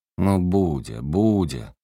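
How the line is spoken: Mock-angry reply. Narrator (Russian): притворно-сердито ответил Ростовцев

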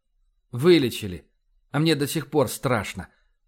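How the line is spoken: Very quiet. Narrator (Russian): очень тихо произнес Вернер

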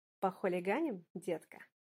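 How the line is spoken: Plain. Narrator (Russian): спросил он

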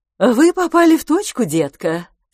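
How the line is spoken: Calm, confident, joyful. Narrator (Russian): сказала спокойно, уверенно и радостно

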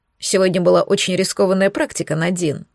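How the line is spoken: Plain. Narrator (Russian): сказал он

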